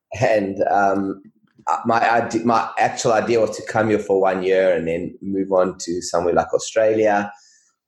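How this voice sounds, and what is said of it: South African accent. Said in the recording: “from South Africa, if you can't recognize the accent”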